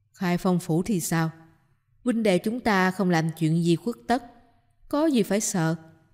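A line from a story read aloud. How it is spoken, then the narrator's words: Scornful laugh. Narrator (Vietnamese): Ngô Đại Lực lại cười nhạt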